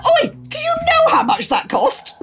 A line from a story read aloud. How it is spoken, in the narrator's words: I want to shout